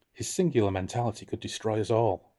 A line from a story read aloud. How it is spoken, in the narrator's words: whispered